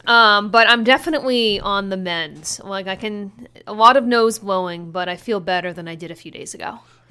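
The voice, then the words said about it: Congested, subdued voice with a cold. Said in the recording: “I am a fountain of snot... if my voice is maybe not as upbeat as it should be”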